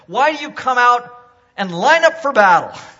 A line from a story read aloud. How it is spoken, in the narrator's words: Goliath shouted to the ranks of Israel